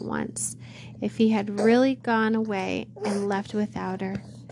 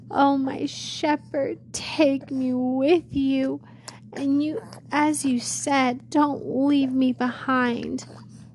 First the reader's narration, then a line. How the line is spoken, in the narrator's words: sobbing